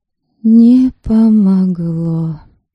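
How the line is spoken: Sad. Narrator (Russian): грустно произнесла Ерисава

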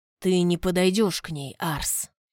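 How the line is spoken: Muffled voice. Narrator (Russian): Глухо проговорил принц Асуров

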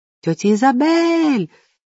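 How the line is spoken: Joyful shriek. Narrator (Russian): радостно завопила Софи

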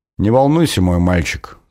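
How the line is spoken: Calm, queen. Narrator (Russian): спокойно ответила королева

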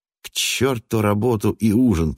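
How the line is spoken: Hoarse Irishman. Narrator (Russian): прохрипел ирландец

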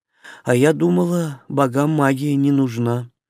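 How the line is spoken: Sad. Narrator (Russian): грустно Шарха

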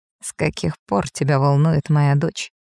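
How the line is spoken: Quiet scoff. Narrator (Russian): Тихо хмыкаю

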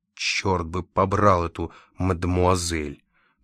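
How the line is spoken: Grumble through teeth. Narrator (Russian): проворчал сквозь зубы Лакандер

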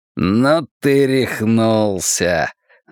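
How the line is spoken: Mocking exclamation. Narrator (Russian): насмешливо восклицает тип с ножом

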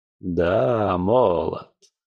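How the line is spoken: Hmphing. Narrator (Russian): хмыкнул Сонг Ядонг

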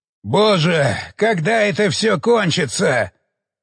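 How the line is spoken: Very loud shout. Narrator (Russian): Он выкрикнул это так громко

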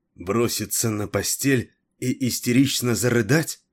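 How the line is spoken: Angry, through gritted teeth. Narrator (Russian): Зло процедила Террес

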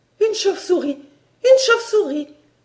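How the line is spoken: Frantic cry. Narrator (French): s'écria Barbara éperdue

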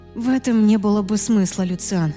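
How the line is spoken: Sighing. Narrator (Russian): вздохнула я

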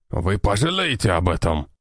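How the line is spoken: Growl. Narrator (Russian): прорычал он

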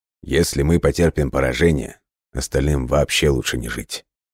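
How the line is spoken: Grim, somber. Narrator (Russian): мрачно произнес Ткаченко

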